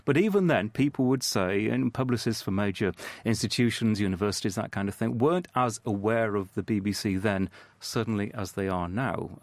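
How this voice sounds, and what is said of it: British accent. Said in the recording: “the whole British thing ... this old accent of ours makes us sound more intelligent”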